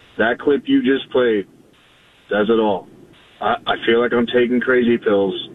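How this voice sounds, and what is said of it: Hoarse, strained voice. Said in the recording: “I lost my voice screaming last night”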